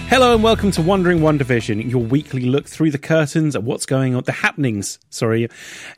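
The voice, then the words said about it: Smooth steady podcast-host voice. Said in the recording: “just crack on, like no change in your voice or anything. You've just got a masterful podcast voice.”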